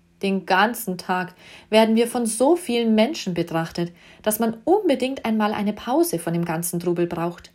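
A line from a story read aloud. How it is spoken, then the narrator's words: Woman whining. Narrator (German): jammerte die Dame mit der Perlenkette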